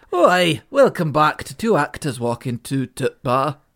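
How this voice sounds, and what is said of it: Dodgy Scottish accent drifting northern. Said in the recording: “a pretty dodgy Scottish accent ... Oh, I've gone a bit northern.”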